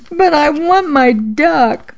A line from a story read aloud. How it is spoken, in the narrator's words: I sobbed